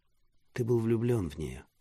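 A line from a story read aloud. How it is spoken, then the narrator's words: Plain question. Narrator (Russian): спросила Мира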